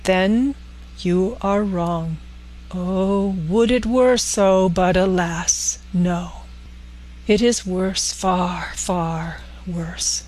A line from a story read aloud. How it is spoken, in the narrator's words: said solemnly